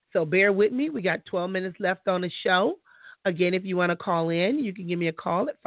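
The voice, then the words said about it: Congested, sick-sounding voice. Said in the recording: “I'm getting kind of sick, I guess, because my nose is getting stopped up. My throat is hurting. My mouth is dry.”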